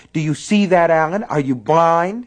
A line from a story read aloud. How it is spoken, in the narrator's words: shouting